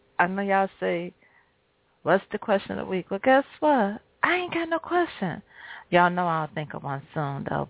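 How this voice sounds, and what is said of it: Slightly raspy voice. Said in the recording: “Y'all hear my voice, it's a little raspy”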